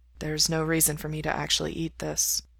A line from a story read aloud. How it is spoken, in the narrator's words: Mikey says softly